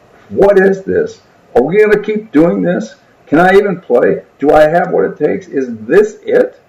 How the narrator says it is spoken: screaming

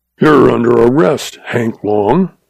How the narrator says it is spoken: he snarled

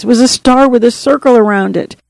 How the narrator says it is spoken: he sobbed, choking out the words

